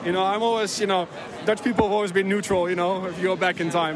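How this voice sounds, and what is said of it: Dutch accent. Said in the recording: “I'm a big fan of the Dutch accent ... what an accent you guys have got. Brilliant.”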